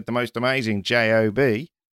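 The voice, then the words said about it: Australian accent impression. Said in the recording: “That was an Australian accent, by the way ... It was perfect. It was perfect.”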